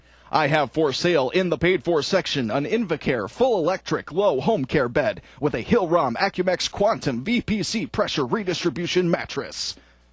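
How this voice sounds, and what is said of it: Big booming radio announcer voice. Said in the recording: “it lets me practice my big booming radio voice ... Give me a chance to practice my radio voice”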